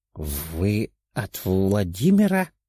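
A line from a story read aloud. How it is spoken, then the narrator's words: Old man's quiet whisper. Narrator (Russian): тихо прошептал старик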